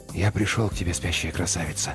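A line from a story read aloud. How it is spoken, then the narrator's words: Whisper. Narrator (Russian): прошептал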